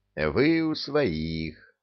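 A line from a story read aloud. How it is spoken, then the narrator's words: Very soothing tone. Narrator (Russian): говорить максимально успокаивающим тоном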